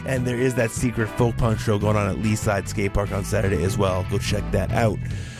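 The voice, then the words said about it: Strained, messed-up voice from throat illness. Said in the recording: “sorry my voice is all messed up. I'm trying to get over a little throat thing”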